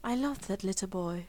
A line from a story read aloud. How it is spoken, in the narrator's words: he murmured